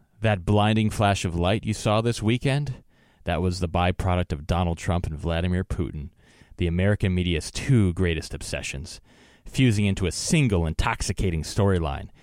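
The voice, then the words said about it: Dramatic reading voice. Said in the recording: “I feel like we need some dramatic music to read this write-up here, but I'll try to do it in my best dramatic voice.”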